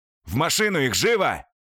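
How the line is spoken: Barked. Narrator (Russian): рявкнул посредник

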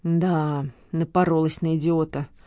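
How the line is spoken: Woman muttering under breath. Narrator (Russian): пробурчала женщина себе под нос

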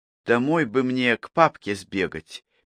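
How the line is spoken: Quiet. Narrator (Russian): тихо сказала Поля

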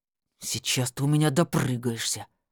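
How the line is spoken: Through gritted teeth. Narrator (Russian): сквозь зубы процедил Валера

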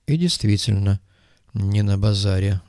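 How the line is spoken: Sigh. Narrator (Russian): вздохнул Коперник

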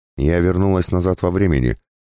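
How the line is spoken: Peremptory declaration. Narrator (Russian): безапелляционно заявила женщина

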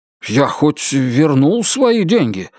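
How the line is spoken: Frightened question. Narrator (Russian): испуганно спросил Китон

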